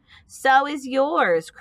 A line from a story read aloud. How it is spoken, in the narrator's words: cried Avery